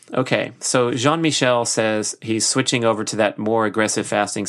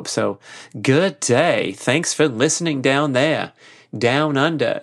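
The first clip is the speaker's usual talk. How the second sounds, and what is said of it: Poor put-on Australian accent. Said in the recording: “hosts that have bloody terrible accents, mate. I'm doing my best here.”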